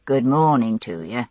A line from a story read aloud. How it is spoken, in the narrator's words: in his soft Yorkshire drawl